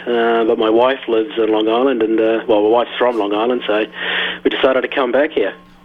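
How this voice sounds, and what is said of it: New Zealand accent. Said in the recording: “I'm originally from New Zealand, hence the accent”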